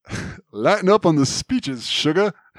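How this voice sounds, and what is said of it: Attempted Southern Louisiana accent. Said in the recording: “I can't quite do the accent ... Rogue's accent is definitely Louisiana”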